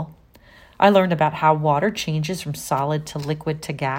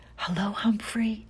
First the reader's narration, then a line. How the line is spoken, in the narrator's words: she whispers